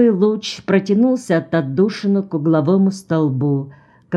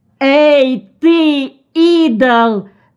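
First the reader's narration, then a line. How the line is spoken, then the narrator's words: Terrified scream. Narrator (Russian): закричал, не помня себя от ужаса, Джон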